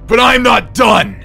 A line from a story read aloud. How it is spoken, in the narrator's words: he screamed